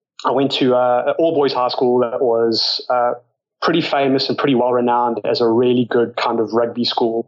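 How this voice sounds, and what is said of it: South African accent. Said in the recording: “you can probably tell from my accent, grew up in South Africa”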